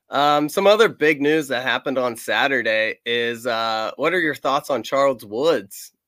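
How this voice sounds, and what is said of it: Hoarse, congested voice. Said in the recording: “I got a cold and my voice is kind of shot”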